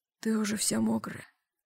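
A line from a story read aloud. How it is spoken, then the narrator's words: Whispering in ear. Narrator (Russian): прошептал он мне на ухо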